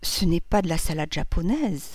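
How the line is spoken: Half-voice. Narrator (French): dit-elle à mi-voix

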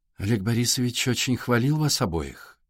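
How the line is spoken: Calm woman. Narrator (Russian): спокойно продолжала женщина

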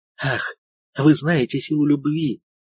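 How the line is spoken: Woman's hollow, muffled voice. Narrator (Russian): произнесла женщина глухим голосом

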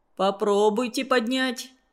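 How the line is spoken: Plain. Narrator (Russian): сказал начальник прииска

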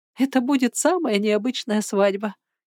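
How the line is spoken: Giggling. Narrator (Russian): хихикнула она

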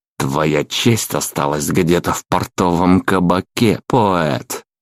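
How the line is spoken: Through gritted teeth. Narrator (Russian): процедил черноглазый

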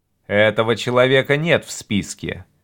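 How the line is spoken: Dry curt. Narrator (Russian): сухо сказал Гард

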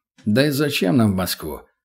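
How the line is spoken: Snorting chuckle. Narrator (Russian): хмыкнул Петрович

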